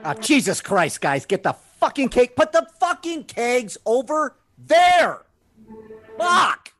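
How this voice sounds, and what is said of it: Screaming angrily. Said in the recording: “why are you screaming?”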